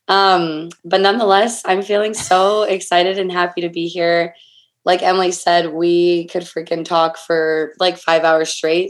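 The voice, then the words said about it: Weak, partly lost voice. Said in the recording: “my voice is half unavailable”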